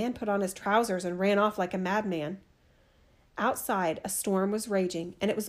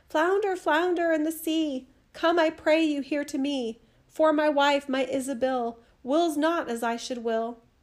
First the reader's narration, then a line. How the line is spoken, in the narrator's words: couldn't hear his own voice when he cried